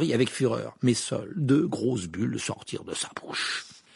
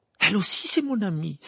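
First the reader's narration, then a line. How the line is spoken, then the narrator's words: Exclaimed. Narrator (French): s'écria Harry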